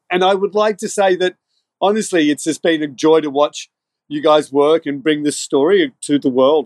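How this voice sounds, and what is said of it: Irish-Australian accent with American tinge. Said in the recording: “It's Irish-Australian, tinged with American. ... it's a classic with thickened by years of whiskey use”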